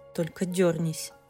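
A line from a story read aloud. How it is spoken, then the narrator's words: Growled. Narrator (Russian): рыкнул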